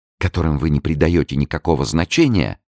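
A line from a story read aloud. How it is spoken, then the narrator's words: Exclaiming. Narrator (Russian): воскликнула Луиза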